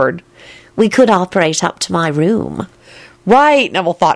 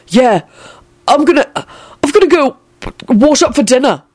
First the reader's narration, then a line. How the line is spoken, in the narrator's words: he said in a frightened voice